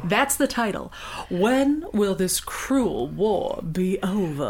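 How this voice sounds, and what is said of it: Exaggerated dramatic Southern US accent. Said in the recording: “read it in a Southern accent ... the terrible Southern accent that I'm going to slip into ... I'm at a solid 8, which is a Blanche Devereaux ... I'm sounding a little more Georgia”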